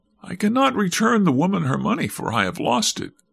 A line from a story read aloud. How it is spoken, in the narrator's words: replied the wretch in a shaking voice